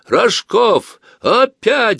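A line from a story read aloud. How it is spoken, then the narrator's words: Yelling. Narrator (Russian): заорал Жень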